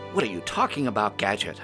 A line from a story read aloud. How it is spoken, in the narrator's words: exclaimed